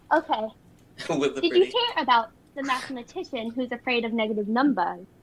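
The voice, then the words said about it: Put-on British accent. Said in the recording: “With a British accent.”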